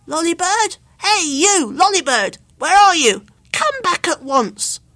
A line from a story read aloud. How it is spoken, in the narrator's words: bawling and shouting